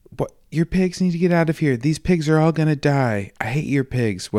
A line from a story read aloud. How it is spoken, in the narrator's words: starts yelling at him